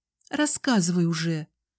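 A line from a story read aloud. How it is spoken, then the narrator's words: Shaky demanding voice. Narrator (Russian): дрогнувшим голосом потребовала я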